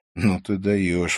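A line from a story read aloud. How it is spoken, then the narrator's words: Breathless exhale. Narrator (Russian): выдохнул я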